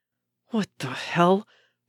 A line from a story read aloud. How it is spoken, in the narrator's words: Bucky hissed, as paranoia reasserted itself